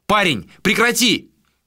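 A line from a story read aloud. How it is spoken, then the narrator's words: Shout. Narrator (Russian): крикнул Адер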